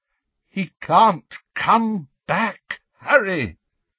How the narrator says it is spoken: said Lupin, his voice breaking

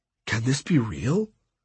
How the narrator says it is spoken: Hondo whispered

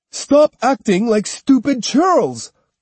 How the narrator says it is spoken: cried the beleaguered samurai, appealing for reason and restraint

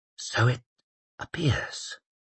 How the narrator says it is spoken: whispered the mayor

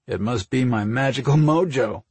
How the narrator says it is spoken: Mike chuckled

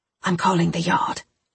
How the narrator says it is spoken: I whispered

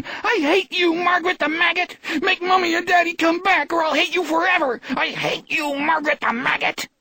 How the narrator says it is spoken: Ralphie Carver is now shrieking

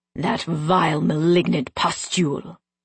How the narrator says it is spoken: Tristan hissed

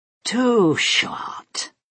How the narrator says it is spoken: Juline purred

